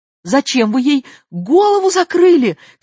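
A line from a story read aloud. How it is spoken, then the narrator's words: Shout. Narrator (Russian): крикнул Миша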